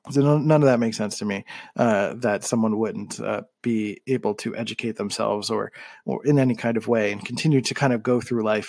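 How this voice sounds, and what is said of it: Southern American accent. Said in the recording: “sorry for the Southern accent.”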